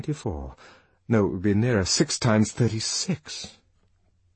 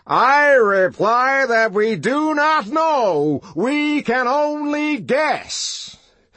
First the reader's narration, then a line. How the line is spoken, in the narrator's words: triumphantly